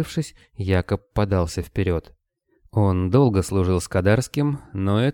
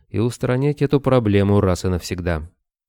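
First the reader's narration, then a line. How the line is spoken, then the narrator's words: Completely calm. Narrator (Russian): совершенно спокойно сказал князь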